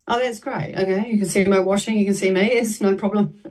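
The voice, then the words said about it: Australian or New Zealand accent. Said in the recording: “a stupid Australian New Zealand accent”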